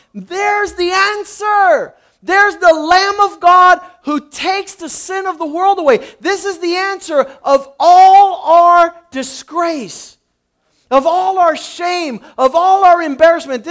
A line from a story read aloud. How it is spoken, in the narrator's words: he's proclaiming at the top of his lungs